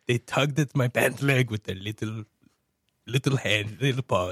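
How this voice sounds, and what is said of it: Imitates another person's accented voice. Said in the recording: “I'm sorry, my accent.”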